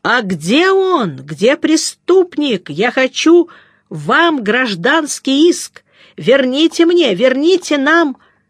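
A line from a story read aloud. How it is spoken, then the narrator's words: Shouted. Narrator (Russian): закричал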